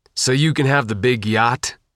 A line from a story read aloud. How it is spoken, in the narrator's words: Isham growled